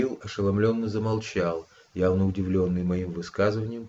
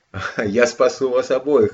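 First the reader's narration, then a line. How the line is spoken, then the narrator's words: Laughing. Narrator (Russian): рассмеялся отмерший Кирилл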